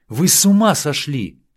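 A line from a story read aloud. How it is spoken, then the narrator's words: Shout in Spanish. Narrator (Russian): крикнула она по-испански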